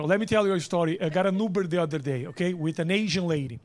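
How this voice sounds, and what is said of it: Brazilian accent, sounds Eastern European. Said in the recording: “my accent says I'm Dracula ... I'm from Brazil, I'm Latino”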